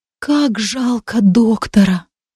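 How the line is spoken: Whisper. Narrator (Russian): прошептала она

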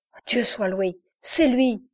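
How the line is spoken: Relieved exclamation. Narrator (French): s'écria-t-il

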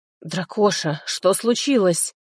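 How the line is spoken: Hoarse wheeze. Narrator (Russian): просипел я

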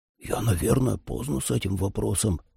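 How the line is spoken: Whispering. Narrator (Russian): прошептал Трой

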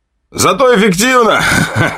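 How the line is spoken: Laughing soldier. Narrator (Russian): хохотал штурмовик

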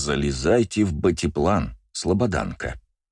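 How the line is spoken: Soft but insistent. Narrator (Russian): мягко, но с нажимом сказал Джейсон

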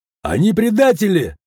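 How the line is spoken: Shout. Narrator (Russian): закричал

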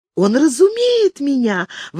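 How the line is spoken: Exclamation. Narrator (Russian): воскликнула принцесса

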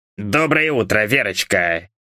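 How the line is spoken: Grumbled. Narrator (Russian): буркнул

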